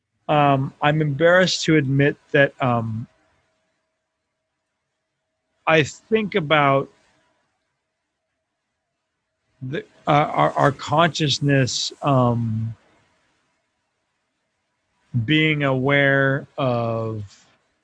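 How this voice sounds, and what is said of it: Very slow, halting speech. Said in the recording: “I'm talking so slow”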